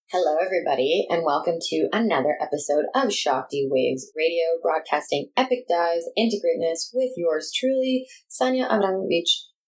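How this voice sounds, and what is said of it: Announcer-style radio voice. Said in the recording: “That's my best radio voice”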